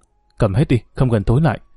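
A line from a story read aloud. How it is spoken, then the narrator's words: Nervous soft mutter. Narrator (Vietnamese): Quả tim thì nhảy dựng lên, khẽ lẩm bẩm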